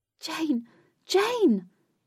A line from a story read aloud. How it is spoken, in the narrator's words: Katie cried while searching frantically by the water's edge